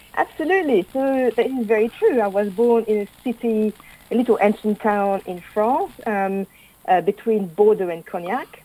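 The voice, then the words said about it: Non-native English accent. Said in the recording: “from your accent, you'll already have gathered that ... is not English”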